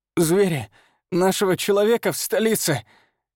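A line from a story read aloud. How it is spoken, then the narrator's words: Hoarse, spitting blood. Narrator (Russian): хрипит он, сплёвывая кровь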